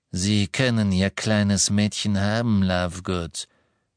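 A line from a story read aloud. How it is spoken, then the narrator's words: Plain. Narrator (German): sagte Selvin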